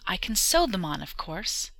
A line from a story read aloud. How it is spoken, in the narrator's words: she exclaimed, smiling again